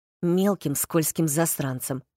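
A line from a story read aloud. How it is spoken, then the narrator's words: Grumbled. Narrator (Russian): проворчал Рин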